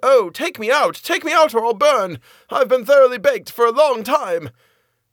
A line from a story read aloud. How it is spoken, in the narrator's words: The bread called out